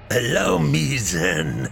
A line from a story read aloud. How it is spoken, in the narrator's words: the Soviet said with a sadistic sneer